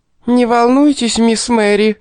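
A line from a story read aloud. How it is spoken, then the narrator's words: Shrill little-girl squeal. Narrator (Russian): заверещала толстуха пронзительно звонким голосом маленькой девочки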